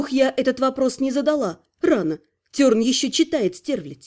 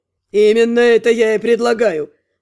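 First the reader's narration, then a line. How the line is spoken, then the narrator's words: Booming drone. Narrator (Russian): Прогудел со своего кресла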